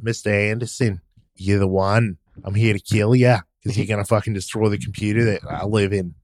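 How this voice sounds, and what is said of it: Put-on Australian accent. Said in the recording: “Agent Smith with an Australian accent”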